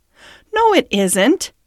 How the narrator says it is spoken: cried the rat indignantly

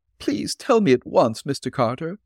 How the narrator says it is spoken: Mina pleaded

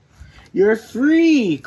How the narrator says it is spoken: cried Ernest and Gallant

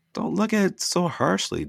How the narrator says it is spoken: Dustin begged

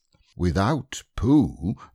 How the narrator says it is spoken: said Rabbit solemnly

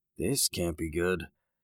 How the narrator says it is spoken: Jake murmured to himself

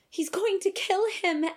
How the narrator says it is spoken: Ashleigh gasped

